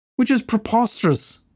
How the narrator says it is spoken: the head curator whined

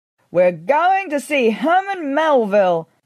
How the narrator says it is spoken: I shouted

